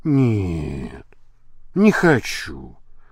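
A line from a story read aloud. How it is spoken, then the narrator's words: Gloomy reply. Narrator (Russian): мрачно ответила Полидора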